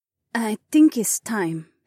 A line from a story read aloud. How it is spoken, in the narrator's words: Haewon said gently